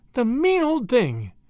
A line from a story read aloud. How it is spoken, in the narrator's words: she exclaimed indignantly